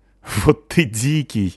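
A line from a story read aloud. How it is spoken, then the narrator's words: Laughing. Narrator (Russian): рассмеялась Настя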